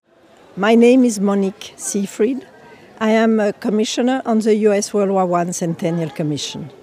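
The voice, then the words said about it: French accent. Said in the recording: “You can hear from my accent that I am originally French.”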